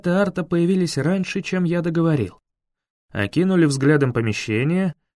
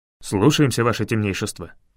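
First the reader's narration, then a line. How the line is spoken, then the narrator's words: Rapid chatter in unison. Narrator (Russian): протараторили они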